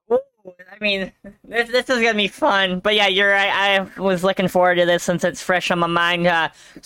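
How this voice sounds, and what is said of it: Wisconsin regional accent. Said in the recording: “I live in Wisconsin, obviously ... if you couldn't tell by the accent”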